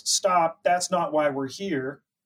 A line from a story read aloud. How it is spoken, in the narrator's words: A woman yells